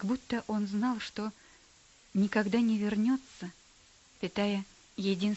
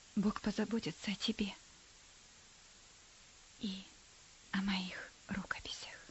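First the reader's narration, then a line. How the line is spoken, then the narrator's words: Whispered. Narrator (Russian): прошептал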